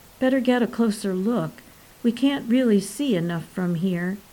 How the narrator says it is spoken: Paul whispered

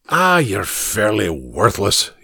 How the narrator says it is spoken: muttered

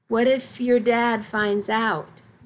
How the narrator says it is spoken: Missy asked

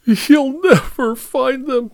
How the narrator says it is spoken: sobbed Martha

